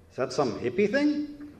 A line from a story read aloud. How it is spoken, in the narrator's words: Christy chuckled